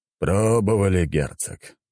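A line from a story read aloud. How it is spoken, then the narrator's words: Weary sighing emperor. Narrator (Russian): устало вздохнул император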